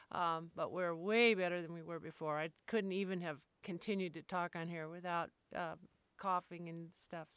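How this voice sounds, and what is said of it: Slightly off, sick-sounding voice. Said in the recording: “I'm not so sick. My voice might sound a little bit funny”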